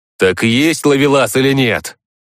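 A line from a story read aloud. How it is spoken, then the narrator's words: Barked by shaman. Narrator (Russian): рявкнул шаман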